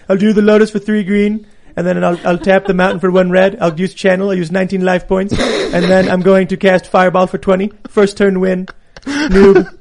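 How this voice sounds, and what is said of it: Imitates another person's voice. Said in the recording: “That's not actually a Trump impersonation. That's me impersonating Seamus impersonating ... Trump. ... It's multiple layers.”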